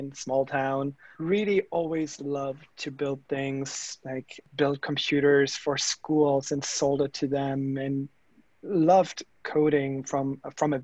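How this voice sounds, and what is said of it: German accent in English. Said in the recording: “you guys might hear from my accent and you know giving it all away like uh, i am that german engineer”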